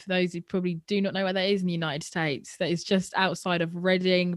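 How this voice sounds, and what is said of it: British accent. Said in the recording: “the good old British accent”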